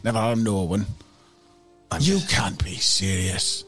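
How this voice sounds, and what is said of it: Put-on Scottish accent. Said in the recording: “he's got more of a Scottish. I keep losing the accent.”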